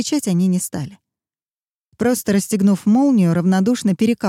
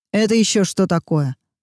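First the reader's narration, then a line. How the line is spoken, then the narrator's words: Menacing question. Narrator (Russian): грозно спросил тот, что рылся в вещах Руби Джо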